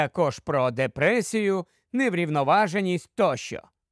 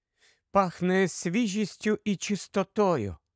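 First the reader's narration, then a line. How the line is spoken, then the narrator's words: Whisper. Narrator (Ukrainian): прошепотіла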